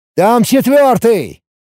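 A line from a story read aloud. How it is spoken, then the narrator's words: Shout into radio. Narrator (Russian): крикнул я уже в рацию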